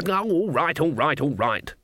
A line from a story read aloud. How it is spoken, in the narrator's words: snapped